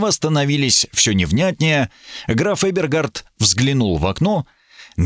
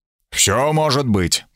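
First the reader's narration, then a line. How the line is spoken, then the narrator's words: Grumbled with full mouth. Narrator (Russian): проворчал Смит с набитым ртом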